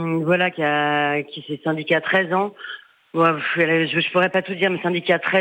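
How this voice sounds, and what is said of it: Usual voice. Nothing is said of it.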